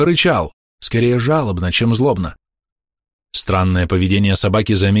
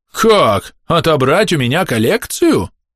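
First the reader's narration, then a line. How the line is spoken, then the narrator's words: Shocked, wounded exclamation. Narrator (Russian): воскликнул кузен Бенедикт таким тоном, словно миссис Уэлдон угрожала вырвать ему сердце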